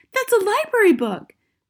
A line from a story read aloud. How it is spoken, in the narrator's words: Matilda cried